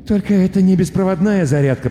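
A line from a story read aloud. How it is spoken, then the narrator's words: Mumbling. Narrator (Russian): пробормотал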